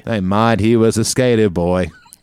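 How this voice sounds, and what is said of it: Sung in a put-on Australian accent. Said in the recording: “I was trying to sing in an Australian accent”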